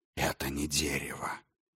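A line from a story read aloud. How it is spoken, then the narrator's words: Whisper. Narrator (Russian): прошептал он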